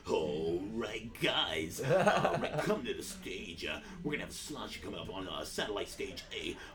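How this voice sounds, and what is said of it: Exaggerated strip club DJ voice. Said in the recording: “he would do the voice. Like, I wouldn't do a DJ voice”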